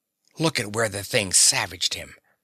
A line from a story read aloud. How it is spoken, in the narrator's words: He whispered to Daisy